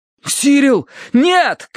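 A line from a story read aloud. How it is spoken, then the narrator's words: Shout. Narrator (Russian): крикнул я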